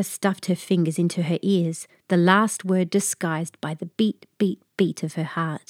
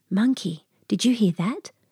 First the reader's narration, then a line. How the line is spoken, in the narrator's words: Julia whispered into the night